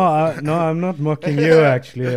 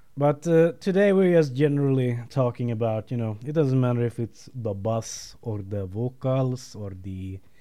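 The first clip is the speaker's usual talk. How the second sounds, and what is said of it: Put-on Slavic accent. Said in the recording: “I don't know why I'm doing a Slavic accent ... I know you're mocking me ... I met a Serbian yesterday, and he kind of talked like that”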